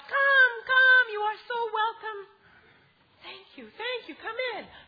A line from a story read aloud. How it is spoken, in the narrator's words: she called out